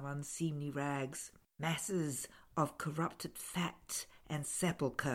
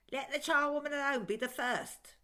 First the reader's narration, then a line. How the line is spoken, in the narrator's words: cried